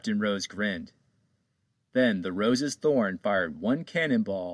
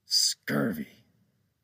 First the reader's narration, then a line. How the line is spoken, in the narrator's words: Captain Joe whispered as he held back his tears